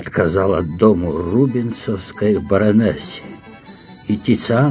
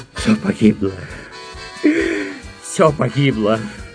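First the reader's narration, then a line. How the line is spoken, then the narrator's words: Count groaning. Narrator (Russian): простонал граф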